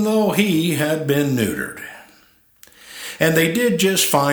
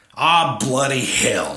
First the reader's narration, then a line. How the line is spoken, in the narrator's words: snapped an indigent corgi